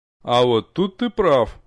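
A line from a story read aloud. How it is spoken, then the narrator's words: Mocking remark from behind. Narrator (Russian): насмешливо заметили откуда-то сзади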